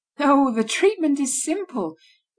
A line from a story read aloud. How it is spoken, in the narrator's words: resumed Michaud with a laugh